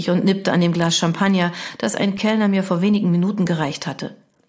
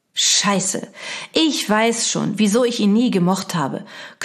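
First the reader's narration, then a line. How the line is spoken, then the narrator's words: Growled. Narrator (German): knurrte Jana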